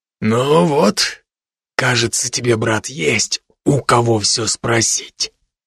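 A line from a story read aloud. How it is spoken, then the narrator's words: Mutter. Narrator (Russian): пробормотал лекарь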